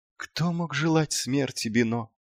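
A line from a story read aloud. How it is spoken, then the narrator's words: Barely audible. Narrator (Russian): едва слышно проговорил клоун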